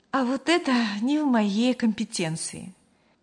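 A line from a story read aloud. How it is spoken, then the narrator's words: Slightly sad smile. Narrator (Russian): немного грустно улыбнулась Мария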